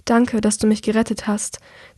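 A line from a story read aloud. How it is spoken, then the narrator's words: Quiet. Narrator (German): sagt Andrea leise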